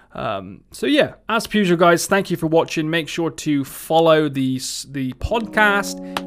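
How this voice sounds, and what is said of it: Somerset English accent. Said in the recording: “my Somerset accent”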